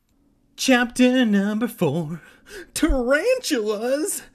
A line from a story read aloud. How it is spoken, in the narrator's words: Evan shrieked